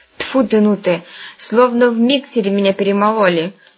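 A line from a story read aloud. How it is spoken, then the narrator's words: Grumbling. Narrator (Russian): ворчал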